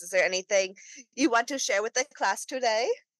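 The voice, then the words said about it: Put-on accent. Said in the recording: “I don't know why I did that accent, but I'm not an accent person.”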